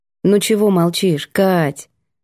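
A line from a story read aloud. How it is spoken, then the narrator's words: Gentle question. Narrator (Russian): спросила мягко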